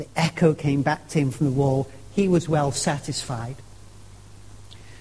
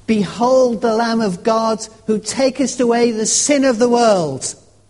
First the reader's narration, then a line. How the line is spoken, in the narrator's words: raised his voice, and he bellowed